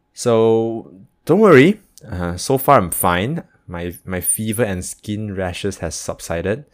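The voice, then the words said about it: Altered voice from sore throat. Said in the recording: “my voice sounds a little bit different in this episode ... please excuse my voice ... the sore throat part”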